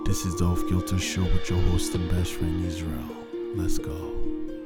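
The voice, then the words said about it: Late-night radio DJ voice. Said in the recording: “I'm putting on my radio, my late night DJ voice”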